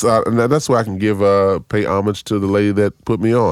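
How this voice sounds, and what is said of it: Usual voice. Nothing is said of it.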